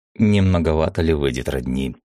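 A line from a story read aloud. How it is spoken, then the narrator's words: Skeptical snort. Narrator (Russian): скептически хмыкнул я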